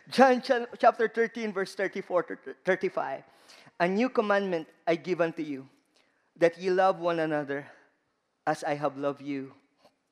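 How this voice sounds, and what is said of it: Strong Filipino accent. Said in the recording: “I have a very strong Filipino accent. ... look for a Filipino.”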